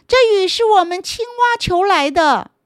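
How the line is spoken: Angry loud shout. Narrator (Chinese): 阿德气坏了，他大声的对所有的动物喊着

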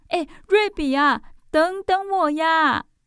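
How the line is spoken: Breathless calling. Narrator (Chinese): 宝儿气喘吁吁地在后面叫着

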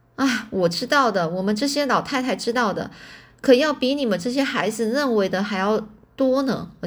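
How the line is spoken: Grandmother laughing. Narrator (Chinese): 奶奶就笑着说

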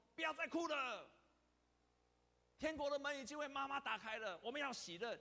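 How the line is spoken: Loud shout. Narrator (Chinese): 一个基督徒就大声喊说

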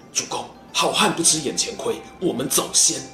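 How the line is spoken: Urgent low voice. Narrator (Chinese): 程普、黄盖、韩当、祖茂四个人呢，眼看不妙，低声对孙坚说

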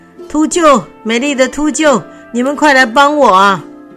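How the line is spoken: Shouting. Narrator (Chinese): 他就大喊着

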